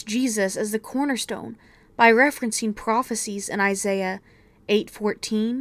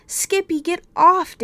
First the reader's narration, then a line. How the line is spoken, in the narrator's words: David sputtered